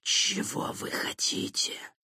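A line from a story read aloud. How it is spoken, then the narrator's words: Hissing like escaping steam. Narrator (Russian): Голос существа напоминал шипение, выпускаемого из клапанов пара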